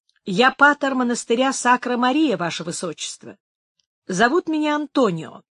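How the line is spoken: Completely calm reply. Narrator (Russian): отвечал совершенно спокойно молодой священник

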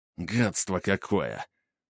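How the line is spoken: Hissed. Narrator (Russian): прошипел Грубер

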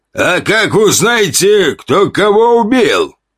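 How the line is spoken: Rough hoarse shout. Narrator (Russian): крикнули грубым, хриплым голосом

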